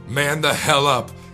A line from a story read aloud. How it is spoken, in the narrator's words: Jackie shouted at me